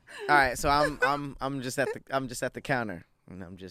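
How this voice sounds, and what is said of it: Usual voice. Nothing is said of it.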